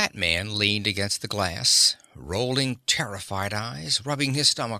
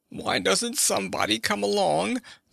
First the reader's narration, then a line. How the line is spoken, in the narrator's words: the fat man moaned